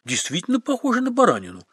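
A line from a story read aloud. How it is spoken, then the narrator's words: Urbane social tone. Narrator (Russian): светским тоном откликнулся Белинский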